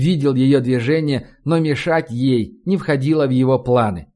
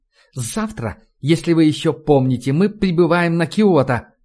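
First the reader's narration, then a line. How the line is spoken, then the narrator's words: Said through teeth. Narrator (Russian): процедила она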